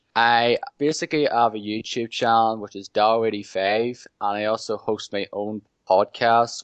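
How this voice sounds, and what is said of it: Northern Irish accent. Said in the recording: “my Northern Irish accent.”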